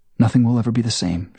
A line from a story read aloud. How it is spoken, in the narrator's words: whispers